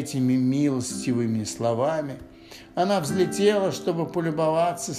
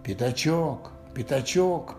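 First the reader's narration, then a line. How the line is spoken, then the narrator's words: Loud whisper calling. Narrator (Russian): позвал Пух громким шепотом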